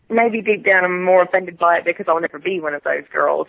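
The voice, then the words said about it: Speaks with an accent. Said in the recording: “you've got the accent.”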